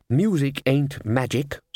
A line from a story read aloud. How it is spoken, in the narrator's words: said Ridcully